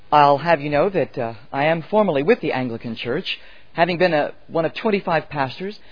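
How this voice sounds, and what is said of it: American accent. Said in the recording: “I suppose my accent betrays my original homeland is the United States”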